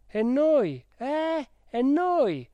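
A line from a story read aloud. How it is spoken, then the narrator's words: Several voices shouting. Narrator (Italian): gridarono più voci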